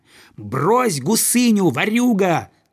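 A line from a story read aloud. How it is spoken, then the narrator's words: Boy shouting. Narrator (Russian): закричал ему мальчик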